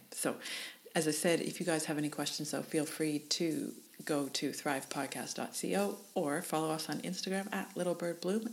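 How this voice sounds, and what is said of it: Mixed Canadian Australian accent. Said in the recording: “my weird Canadian Australian accent”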